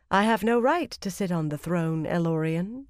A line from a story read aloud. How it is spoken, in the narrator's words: she replied calmly